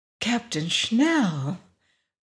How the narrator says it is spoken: breathed Florence Wood

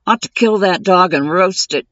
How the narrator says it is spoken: Diedrich grumbled

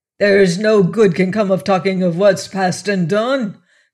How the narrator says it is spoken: cried Cahusac, more sullen now than truculent

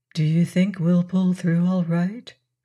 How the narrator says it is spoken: she asked quietly

